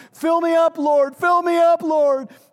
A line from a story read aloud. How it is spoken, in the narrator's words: he's like yelling, and as he's sobbing, he's yelling